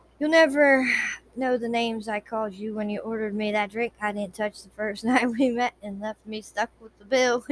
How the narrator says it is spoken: chuckled delightedly

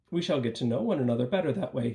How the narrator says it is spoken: he said

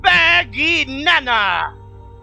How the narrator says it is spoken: Joho the stuffed monkey shouts

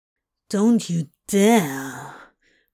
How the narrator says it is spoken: Crowley growled

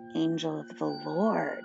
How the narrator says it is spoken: I said under my breath to Josh

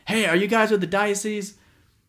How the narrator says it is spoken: we hear this guy yell from across the parking lot

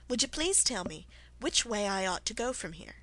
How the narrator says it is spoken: began Alice rather timidly

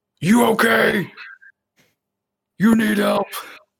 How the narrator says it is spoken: scream

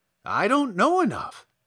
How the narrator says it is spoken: replied the Scarecrow cheerfully

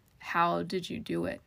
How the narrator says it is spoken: he asked

